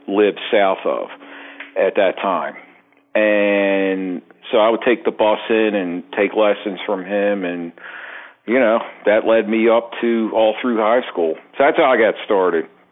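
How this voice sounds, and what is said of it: Strong Baltimore accent, slightly Southern. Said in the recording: “your voice is central casting out of the wire... the Baltimore accent... it is spot on, full on Baltimore... It is like a hybrid little Southern accent mixed, you know, mixed in”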